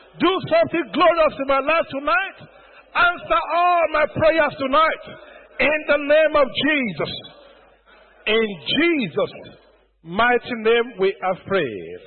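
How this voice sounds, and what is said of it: Shouting loudly while praying. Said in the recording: “I'm shouting. ... I have tendency to shout when I'm praying.”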